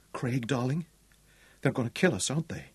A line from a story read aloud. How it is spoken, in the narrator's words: Sally Ann asked quietly